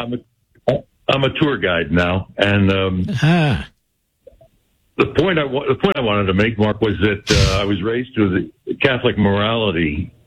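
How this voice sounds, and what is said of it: Polished radio announcer voice. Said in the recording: “A radio voice, America. you have a radio voice.”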